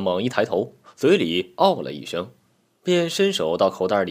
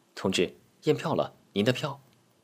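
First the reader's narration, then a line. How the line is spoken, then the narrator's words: Soft voice. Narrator (Chinese): 小吴轻声说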